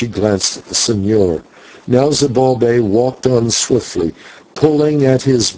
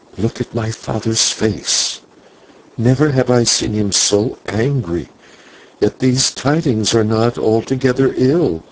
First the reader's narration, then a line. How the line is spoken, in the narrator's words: Maya whispered